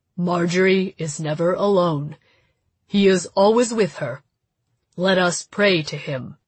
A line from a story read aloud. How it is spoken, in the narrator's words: He said in his most patient voice, which seemed to be not his voice at all, as alien as the voices coming from my sister